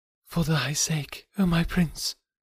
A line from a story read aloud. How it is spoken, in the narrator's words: she murmured